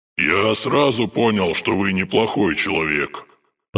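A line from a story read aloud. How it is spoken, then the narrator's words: Ghost's brightened grumble. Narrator (Russian): посветлев, проворчал призрак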